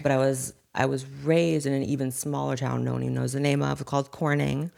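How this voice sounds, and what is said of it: Valley Girl accent. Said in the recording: “when are you going to drop the Valley Girl accent? ... I literally grew up in the Valley”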